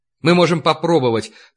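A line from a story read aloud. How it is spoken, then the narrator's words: Hurried speech. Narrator (Russian): торопливо заговорил он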